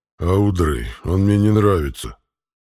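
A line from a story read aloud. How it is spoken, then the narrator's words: Growled. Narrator (Russian): прорычал питомец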